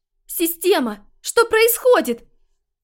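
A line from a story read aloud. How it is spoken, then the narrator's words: Inner panicked scream. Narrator (Russian): Мысленно завопила Вика, паникуя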